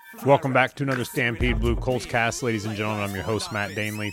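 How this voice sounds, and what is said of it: Sick, under-the-weather voice. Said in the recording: “Been a little under the weather as of late, as you can probably tell by my voice”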